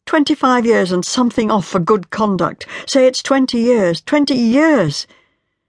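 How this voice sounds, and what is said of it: Tormented, anguished voice. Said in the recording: “in a tormented voice.”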